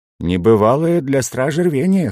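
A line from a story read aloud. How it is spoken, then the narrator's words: Wry snort. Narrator (Russian): хмыкнул я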